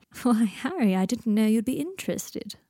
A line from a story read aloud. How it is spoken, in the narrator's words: purred Malfoy